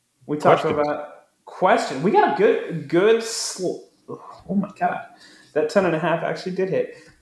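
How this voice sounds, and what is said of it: Slurred speech. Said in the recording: “I'm slurring my words over here like I'm on a slip and slide.”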